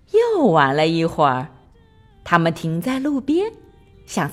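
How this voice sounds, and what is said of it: Usual voice. Nothing is said of it.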